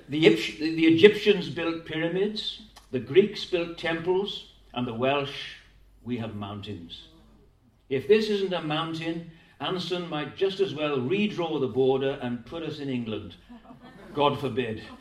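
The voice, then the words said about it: Put-on Welsh accent. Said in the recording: “I'll try and do it with a Welsh accent”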